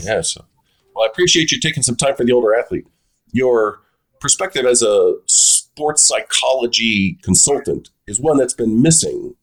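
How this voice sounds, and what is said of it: Funny voice. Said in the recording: “sorry for the funny voice. I'm still recovering from the cold that I had in spades when I was talking to Dr. Miele.”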